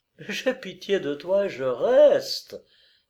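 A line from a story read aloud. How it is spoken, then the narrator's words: Laughing reply. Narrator (French): répliqua-t-elle en riant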